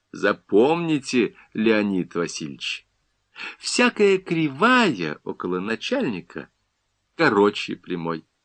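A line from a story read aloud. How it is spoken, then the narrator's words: Ingratiating, insinuating tone. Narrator (Russian): вкрадчивым тоном сообщил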